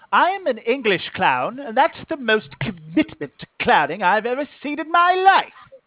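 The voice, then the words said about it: Thick English accent. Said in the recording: “British clown ... accent. It's too thick. ... Let me tone it down.”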